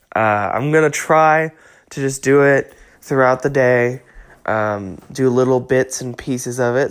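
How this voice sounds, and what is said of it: Weak, strained voice from illness. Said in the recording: “trying to make a podcast when you're sick ... my voice is dying constantly”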